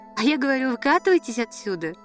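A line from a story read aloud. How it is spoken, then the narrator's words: Laughing. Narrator (Russian): рассмеялась и Надя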